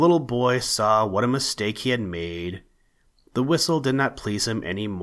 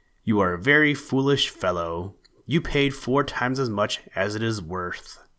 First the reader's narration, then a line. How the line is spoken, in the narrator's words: His brother laughed and said